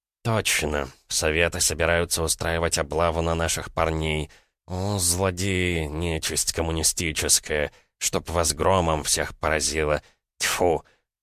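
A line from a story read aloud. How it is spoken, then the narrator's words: Angry dry spit. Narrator (Russian): злобно плюнул без слюны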